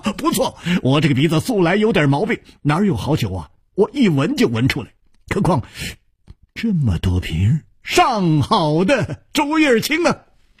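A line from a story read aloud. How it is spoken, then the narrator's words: Hearty laughter. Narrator (Chinese): 大笑说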